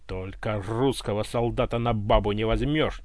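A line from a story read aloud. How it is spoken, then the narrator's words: Nearly barked at full voice. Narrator (Russian): чуть не рявкнул он во всю глотку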